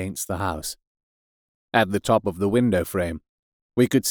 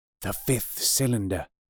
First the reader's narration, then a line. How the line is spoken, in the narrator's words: I whispered